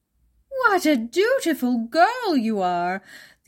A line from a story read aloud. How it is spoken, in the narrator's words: the old woman exclaimed in admiration